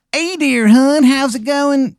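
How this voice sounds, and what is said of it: Bad fake Maryland accent. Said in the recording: “it's the worst Maryland accent you've ever heard in your fucking life... Almost as if, like, it's not a real Maryland accent.”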